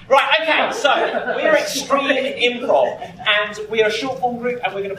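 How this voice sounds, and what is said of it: English accent. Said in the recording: “in case you cannot understand from our accents, we are from England”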